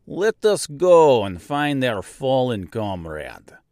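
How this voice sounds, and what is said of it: Weak put-on Russian accent. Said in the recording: “not the best Russian accent”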